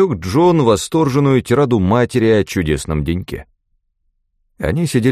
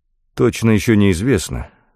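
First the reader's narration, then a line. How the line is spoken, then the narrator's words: Mumbling. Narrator (Russian): промямлил Фрэнк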